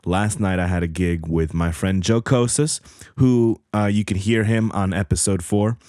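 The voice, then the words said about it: Slightly hoarse voice. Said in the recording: “I sound hoarse, I kind of feel a little bit hoarse and my voice is not like completely there together”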